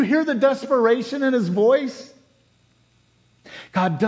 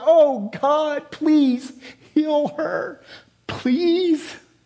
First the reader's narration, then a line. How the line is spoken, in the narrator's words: Moses cries to the Lord